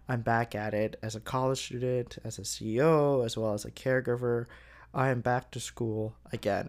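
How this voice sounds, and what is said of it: Flat, monotone, unexcited voice. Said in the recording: “as you can tell from my somewhat monotone voice today, I am not that excited”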